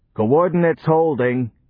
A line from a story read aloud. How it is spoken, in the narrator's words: the bullhorn roared